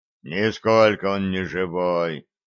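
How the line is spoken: Gruff mutter. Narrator (Russian): буркнул Степан

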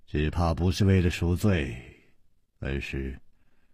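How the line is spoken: Sighing. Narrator (Chinese): 楚留香叹了一口气

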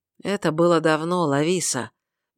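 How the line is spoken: Soft reply. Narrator (Russian): мягко ответил фермер

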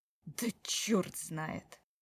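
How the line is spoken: Through gritted teeth. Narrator (Russian): Сказал он вдруг сквозь зубы

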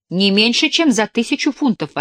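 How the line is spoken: Lady exclaiming. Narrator (Russian): воскликнула леди Дарбифилд

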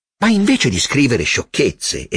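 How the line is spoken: Sudden serious exclamation. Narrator (Italian): esclamò con improvvisa serietà

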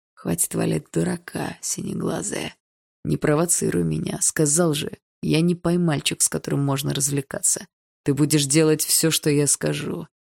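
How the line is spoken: Quiet, into the ear. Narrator (Russian): тихо сказал он мне на ухо

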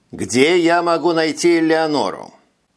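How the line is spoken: Stern question. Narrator (Russian): спросил Витя самым строгим голосом, на который был способен

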